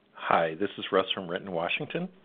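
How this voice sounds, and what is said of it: Smooth announcer-style radio voice. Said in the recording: “It's ... radio voice. It's”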